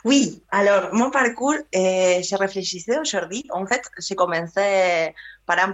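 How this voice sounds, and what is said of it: Sing-song non-Parisian French accent. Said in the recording (French): “elle n'a pas l'accent France Inter parisien ... elle a un accent que je trouve chantant”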